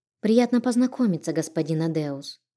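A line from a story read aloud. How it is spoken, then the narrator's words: Timid. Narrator (Russian): робко произнесла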